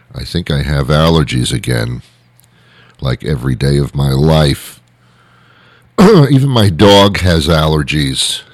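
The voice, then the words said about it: Hoarse voice. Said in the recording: “I am a little bit hoarse today.”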